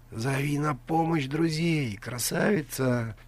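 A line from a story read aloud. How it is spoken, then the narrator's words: Stranger whispering in ear. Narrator (Russian): прошептал ей на ухо незнакомец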